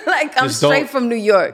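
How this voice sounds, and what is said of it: New York accent. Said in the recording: “Can you not hear my accent? ... Yeah, you're from New York.”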